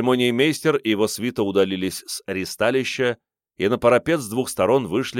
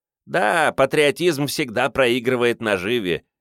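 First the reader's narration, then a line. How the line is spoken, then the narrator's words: Snide giggle. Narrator (Russian): ехидно захихикал меркиец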